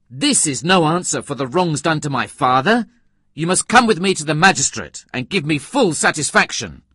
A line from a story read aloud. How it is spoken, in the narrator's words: exclaimed angrily